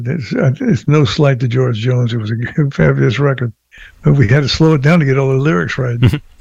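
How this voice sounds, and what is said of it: Slightly rough, cold-affected voice. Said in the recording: “Pardon my voice. I get a little cold.”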